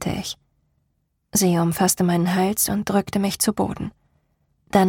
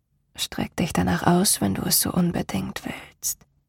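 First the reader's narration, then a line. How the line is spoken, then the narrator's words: Murmuring. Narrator (German): murmelte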